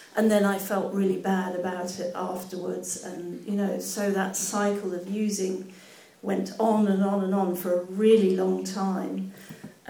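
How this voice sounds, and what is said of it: Nervous-sounding voice. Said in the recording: “I can hear from my voice, I'm really nervous”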